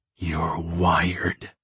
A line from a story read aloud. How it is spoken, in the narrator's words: I hiss in her ear